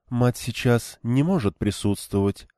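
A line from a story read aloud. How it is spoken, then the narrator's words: Even-voiced answer. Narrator (Russian): ровным голосом ответила Романда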